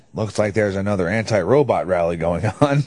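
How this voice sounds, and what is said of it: Scary robot voice. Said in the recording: “That's a really scary robot voice.”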